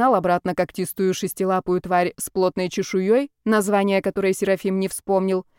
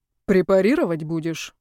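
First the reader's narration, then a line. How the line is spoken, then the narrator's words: Gloomy question. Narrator (Russian): мрачно поинтересовался Сев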